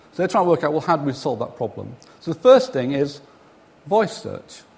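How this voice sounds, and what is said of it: Mumbling northern English accent. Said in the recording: “My mumbling northern accent”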